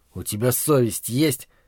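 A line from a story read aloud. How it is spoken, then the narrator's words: Dazed whisper. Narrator (Russian): Едва придя в себя, шепотом возвал я к бродяге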